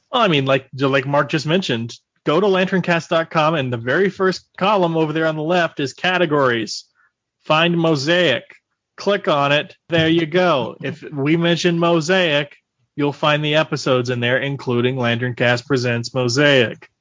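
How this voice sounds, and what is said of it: Impression of a co-host's voice. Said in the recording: “Very good Mark impression ... that's what he sounds like”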